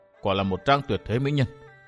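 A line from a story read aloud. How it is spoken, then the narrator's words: Quiet murmur to himself. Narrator (Vietnamese): chàng khẽ nhủ thầm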